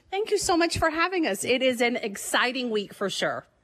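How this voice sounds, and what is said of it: Happy bubbly radio voice. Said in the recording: “that radio voice ... the same happy, bubbly energy”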